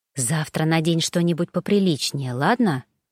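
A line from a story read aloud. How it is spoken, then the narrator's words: Whisper. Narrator (Russian): шепнула она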